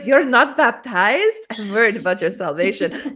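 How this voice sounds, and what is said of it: Nacho Libre's strong accent. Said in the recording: “Nacho Libre tells his friend, he's like, I'm worried about your salvation. His like strong accent.”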